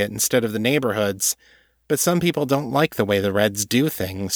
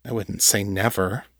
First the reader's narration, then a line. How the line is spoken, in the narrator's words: he muttered